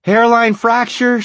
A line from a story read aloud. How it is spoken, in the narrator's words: she shouted at him